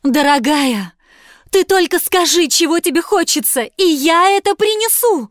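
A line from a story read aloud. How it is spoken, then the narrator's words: Pleading. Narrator (Russian): взмолился муж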